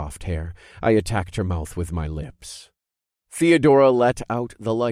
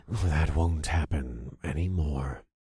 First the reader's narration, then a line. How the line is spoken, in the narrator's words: I whispered